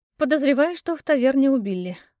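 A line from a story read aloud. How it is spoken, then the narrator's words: Sigh. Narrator (Russian): вздохнула я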